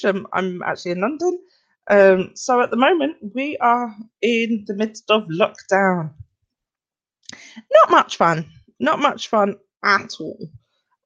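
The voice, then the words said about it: English accent. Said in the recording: “my accent, I'm English.”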